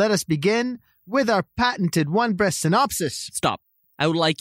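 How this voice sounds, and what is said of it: Usual voice. Nothing is said of it.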